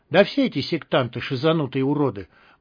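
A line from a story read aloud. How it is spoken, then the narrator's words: Gloomy voice. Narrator (Russian): мрачно проговорил первый мародер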